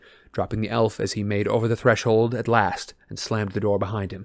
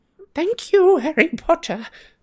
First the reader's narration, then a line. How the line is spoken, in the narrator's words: squeaked Dobby